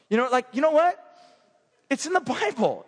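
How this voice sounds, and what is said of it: Put-on accent. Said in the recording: “I don't know where this accent came from. It was so good.”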